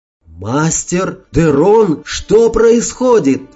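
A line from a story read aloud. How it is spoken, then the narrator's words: Frightened yell. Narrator (Russian): испуганно завопил я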